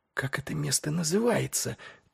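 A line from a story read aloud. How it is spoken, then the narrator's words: Female whisper. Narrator (Russian): прошептала она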